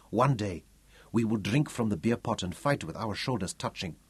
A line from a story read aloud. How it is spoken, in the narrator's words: Kamuza answered him quietly